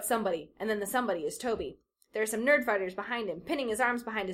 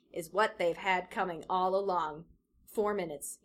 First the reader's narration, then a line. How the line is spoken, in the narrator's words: says